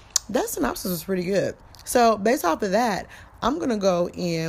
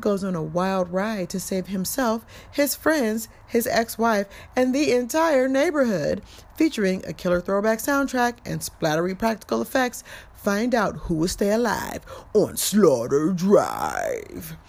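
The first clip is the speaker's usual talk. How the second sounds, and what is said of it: Announcer-style voice. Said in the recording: “in my announcer voice”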